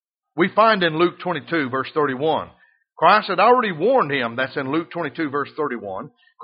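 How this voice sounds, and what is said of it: Southern US Alabama accent. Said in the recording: “I'm from the Southland. They say, oh, you somewhere from down south. And when I say Bama, they know... Oh, you've got that accent.”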